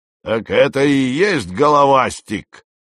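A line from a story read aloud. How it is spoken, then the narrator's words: Fake booming exclamation. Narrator (Russian): вскричал он густым, бухающим голосом, поддельным, конечно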